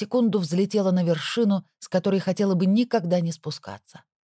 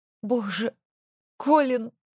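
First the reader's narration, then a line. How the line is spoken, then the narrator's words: Sobbing outburst. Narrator (Russian): вырвалось из меня с рыданием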